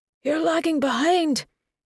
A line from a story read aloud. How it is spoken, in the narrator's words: Craig called out to her